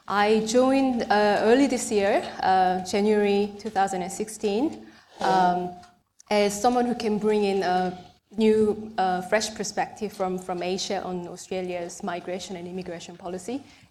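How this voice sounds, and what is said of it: Mixed accent with British influence. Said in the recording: “my dodgy accent, I spent some time in the UK for my education and Singapore for my employment for the past 10 years, so excuse my dodgy accent.”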